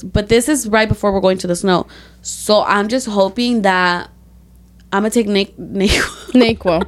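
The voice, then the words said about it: Hoarse, congested voice. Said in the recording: “I woke up with a sore throat... My voice is going away and I have a stuffy nose”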